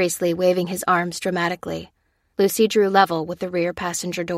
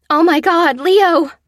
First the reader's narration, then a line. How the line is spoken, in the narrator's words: cried Josie